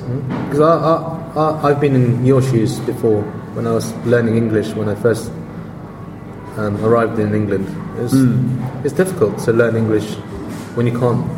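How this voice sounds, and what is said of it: Lovely non-native English accent. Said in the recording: “such a lovely accent”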